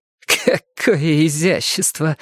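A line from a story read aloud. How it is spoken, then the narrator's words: Snorting. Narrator (Russian): фыркнула Нелли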